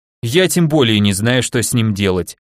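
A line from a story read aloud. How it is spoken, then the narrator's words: Snort. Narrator (Russian): хмыкнул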